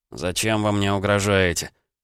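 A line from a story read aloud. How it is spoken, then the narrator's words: Grumble. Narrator (Russian): пробурчал Никита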